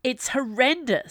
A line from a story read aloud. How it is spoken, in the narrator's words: snapped Viola